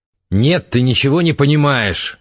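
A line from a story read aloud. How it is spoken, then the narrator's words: Angry shout. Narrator (Russian): зло выкрикнул Антон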